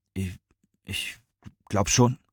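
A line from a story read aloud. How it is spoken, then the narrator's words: Stammering. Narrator (German): stotterte Rahmane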